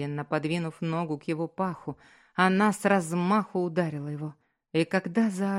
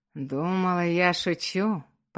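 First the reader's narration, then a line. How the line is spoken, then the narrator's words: Hoarse rasp. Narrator (Russian): прохрипел Джо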